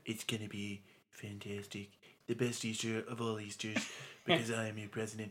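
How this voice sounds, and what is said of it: Imitates another person's voice. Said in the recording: “That's a pretty good impression”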